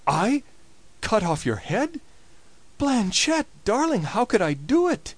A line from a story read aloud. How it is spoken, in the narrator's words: cried the prince